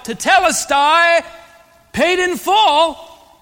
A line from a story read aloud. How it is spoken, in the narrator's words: he will shout